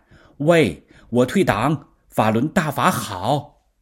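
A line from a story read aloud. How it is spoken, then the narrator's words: Shouting over the phone. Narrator (Chinese): 对方……在电话里就喊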